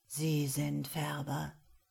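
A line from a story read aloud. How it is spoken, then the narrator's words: Quiet question. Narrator (German): fragte Kiarow mit leiser Stimme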